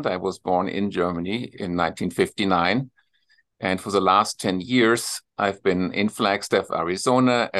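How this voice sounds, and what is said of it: German accent. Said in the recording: “you probably detect my accent right away, if I just say hello ... My accent is a German accent.”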